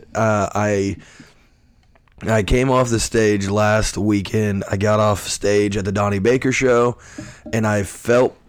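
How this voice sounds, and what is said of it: Rough, hoarse voice. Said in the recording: “my voice is shot. It is, it's rough.”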